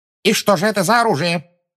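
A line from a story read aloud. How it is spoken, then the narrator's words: Sharp question. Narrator (Russian): резко спросила Амбридж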